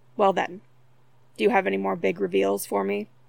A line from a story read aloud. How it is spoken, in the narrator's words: Derek asked dryly